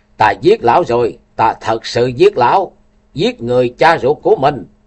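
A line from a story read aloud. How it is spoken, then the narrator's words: Frantic screaming. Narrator (Vietnamese): hét như điên dại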